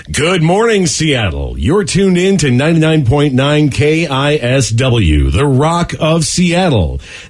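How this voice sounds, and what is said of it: Radio announcer voice. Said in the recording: “radio announcer ... sound like a radio voice ... This is your radio announcer voice”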